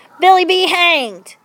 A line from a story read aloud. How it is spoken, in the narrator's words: shouted Mountain Jack